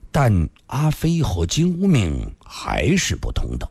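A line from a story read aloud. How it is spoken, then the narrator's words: Slow, after long silence. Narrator (Chinese): 李寻欢默然良久，缓缓地说道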